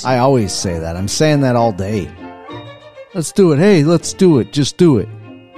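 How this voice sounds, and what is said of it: Slips into a put-on accent. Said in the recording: “You slip into that accent? ... Yes, every single time I say it.”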